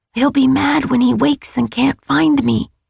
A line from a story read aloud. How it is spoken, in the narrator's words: Nate whispered through the door